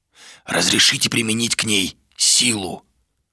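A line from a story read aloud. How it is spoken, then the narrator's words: Whispered again. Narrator (Russian): вновь прошептал Луга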